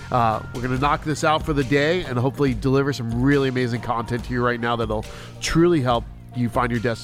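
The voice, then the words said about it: Strained, fading voice. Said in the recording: “I'm losing my voice already.”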